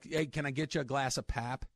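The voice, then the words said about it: Midwestern accent with flat vowels. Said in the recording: “that weird Midwestern one with the flat vowels”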